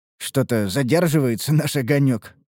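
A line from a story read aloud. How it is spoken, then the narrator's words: Snort. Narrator (Russian): хмыкнул я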